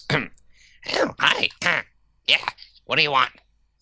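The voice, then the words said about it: Gnome character voice. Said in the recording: “just pretend I'm doing a gnome voice”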